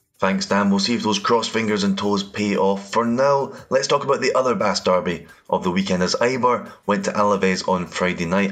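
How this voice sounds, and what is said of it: Scottish accent. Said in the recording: “As you'll know from my accent, I am Scottish”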